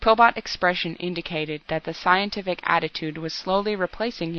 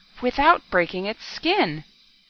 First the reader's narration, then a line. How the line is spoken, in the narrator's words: he gasped hoarsely